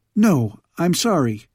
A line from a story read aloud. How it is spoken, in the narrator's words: cried Milouend